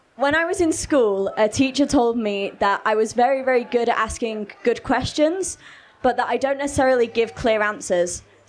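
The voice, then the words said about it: Hoarse voice. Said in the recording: “My voice is a bit hoarse from the glitter ball last night”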